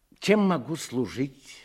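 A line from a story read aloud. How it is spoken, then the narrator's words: Plain. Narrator (Russian): спросил Кресин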